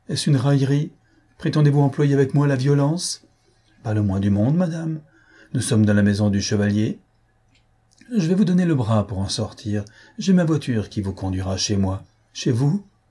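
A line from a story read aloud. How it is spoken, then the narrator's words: Fear-shaken exclamation. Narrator (French): s'écria-t-elle d'une voix altérée par la frayeur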